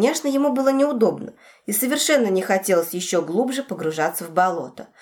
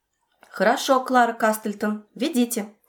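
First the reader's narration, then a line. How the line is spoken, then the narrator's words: Plain. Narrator (Russian): сказал он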